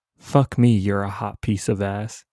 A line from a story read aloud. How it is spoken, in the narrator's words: he muttered